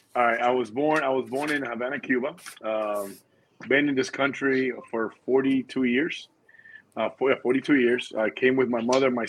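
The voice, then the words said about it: Cuban-accented English. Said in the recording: “I know you have an accent. ... I think you're of Cuban descent”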